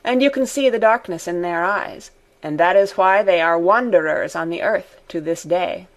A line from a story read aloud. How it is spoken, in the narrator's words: Deasy said gravely